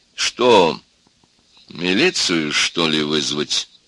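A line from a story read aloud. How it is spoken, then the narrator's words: Calm, contemptuous. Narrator (Russian): спросил доктор спокойно и презрительно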